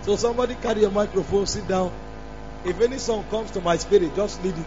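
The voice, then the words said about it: Damaged, weak voice. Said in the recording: “You can see that my voice is bastardized ... if my voice is bad”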